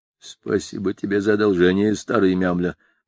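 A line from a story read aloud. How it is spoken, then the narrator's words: Muttering. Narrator (Russian): пробормотал бортник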